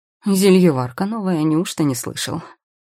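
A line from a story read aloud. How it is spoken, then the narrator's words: Old man's snort. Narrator (Russian): хмыкнул старик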